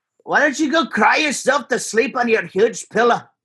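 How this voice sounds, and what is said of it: Put-on Scottish accent. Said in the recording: “I've heard you try and impersonate a Scottish person once or twice, and you're certainly good. ... my Scottish impression is just Mike Myers”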